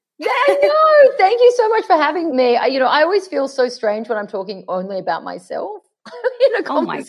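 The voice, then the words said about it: Australian accent. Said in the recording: “Loved hearing your Aussie accent.”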